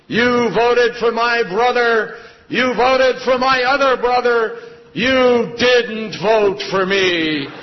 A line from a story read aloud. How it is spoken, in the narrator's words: his voice boomed out in this room